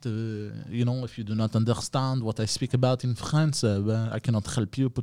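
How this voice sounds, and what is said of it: Put-on French accent. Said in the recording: “This is my French accent.”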